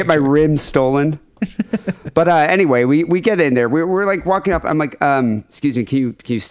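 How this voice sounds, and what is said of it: Usual voice. Nothing is said of it.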